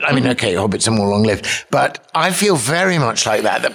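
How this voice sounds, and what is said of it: British accent. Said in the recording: “people can tell by your accent you're not really from around Nashville area ... I'm a Brit ... I'm half English, half Scottish”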